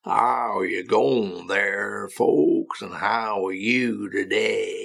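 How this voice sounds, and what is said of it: Put-on Texan drawl, stretched vowels. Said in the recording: “they often refer to the Texan drawl. So if you listen to somebody from the deep south of Texas in America ... so that's a drawl ... a drawl is usually an overstressing, particularly of the vowel sounds”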